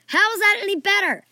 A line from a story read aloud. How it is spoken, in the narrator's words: Archie screamed